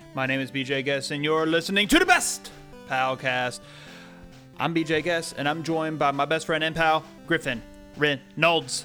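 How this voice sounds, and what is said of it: Wrestling announcer style voice. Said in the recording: “you sound like a wrestling announcer. Like, in this corner!”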